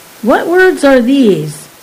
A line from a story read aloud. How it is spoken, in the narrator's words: Balk exclaimed